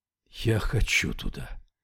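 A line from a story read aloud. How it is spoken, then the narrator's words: Breathed out. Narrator (Russian): выдохнул Яффа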